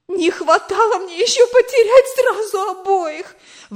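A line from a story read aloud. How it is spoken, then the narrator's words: Exclaiming. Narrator (Russian): воскликнула она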